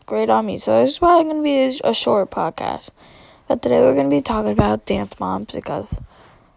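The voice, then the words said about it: Hoarse, mostly lost voice. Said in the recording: “I lost my voice.”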